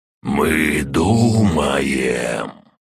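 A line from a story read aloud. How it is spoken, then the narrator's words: Creaking voice. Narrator (Russian): проскрипело дерево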